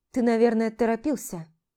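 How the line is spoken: Dry. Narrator (Russian): Сухо проговорила

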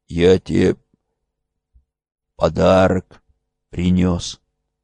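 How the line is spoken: Quiet, dry-mouthed. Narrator (Russian): Он с трудом разжал сразу пересохшие губы, тихо произнес

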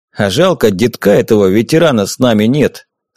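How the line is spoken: Mumbling with full mouth. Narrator (Russian): с набитым ртом пробурчал Пригожня

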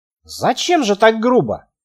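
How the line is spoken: Quiet. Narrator (Russian): тихо сказала

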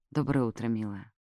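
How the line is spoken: Whispered. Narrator (Russian): шепнул

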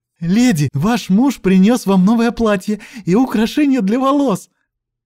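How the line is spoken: Joyful chirping. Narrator (Russian): Радостно прощебетала она

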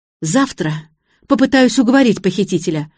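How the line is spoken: Fervent exclamation, daughter. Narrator (Russian): жаром воскликнула дочка

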